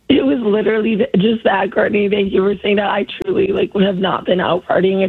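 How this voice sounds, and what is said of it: Hoarse, nearly lost voice. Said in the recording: “Sorry I lost my voice, so apologies to all the listeners ... your voice sounds that way”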